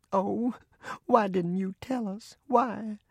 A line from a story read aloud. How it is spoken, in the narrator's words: I heard her say in a quavering voice